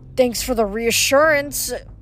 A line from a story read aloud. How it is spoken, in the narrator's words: Piper groaned